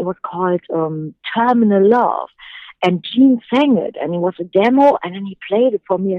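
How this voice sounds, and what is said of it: Non-native English accent. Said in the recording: “I know I have an accent and stuff, and the T's in terminal love”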